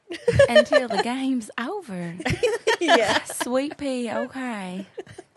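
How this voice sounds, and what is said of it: Put-on Southern US accent. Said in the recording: “Do a southern accent until the game's over.”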